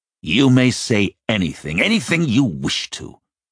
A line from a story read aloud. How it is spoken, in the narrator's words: the first man barked, his anger sounding strangely like pain